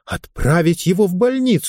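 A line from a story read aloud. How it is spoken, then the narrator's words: Exclaimed, female. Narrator (Russian): воскликнула она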